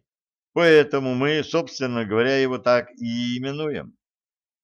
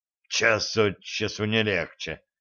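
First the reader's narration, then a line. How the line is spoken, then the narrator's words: Muttered. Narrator (Russian): буркнул Яков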